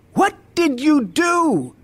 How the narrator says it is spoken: screamed

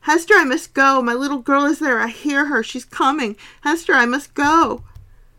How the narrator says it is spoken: she, suddenly struggling to get free from me, cried

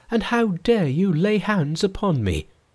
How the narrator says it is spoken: she cried

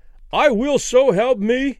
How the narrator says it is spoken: Danny cried with abrupt conviction

